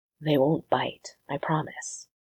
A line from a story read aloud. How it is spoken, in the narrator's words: Evan whispered